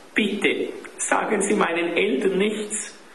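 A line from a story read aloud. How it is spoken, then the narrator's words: Sobbing. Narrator (German): schluchzte Klaus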